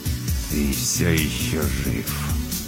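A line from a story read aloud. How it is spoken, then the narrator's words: Angry through gritted teeth. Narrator (Russian): злобно процедил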